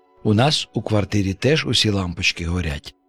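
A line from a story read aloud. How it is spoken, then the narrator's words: Plain. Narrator (Ukrainian): сказав Гоша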